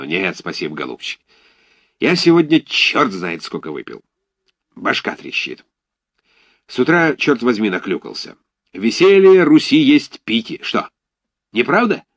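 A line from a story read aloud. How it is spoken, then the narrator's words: Sudden drunken exclamation. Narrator (Russian): воскликнул он вдруг внезапно пьяным голосом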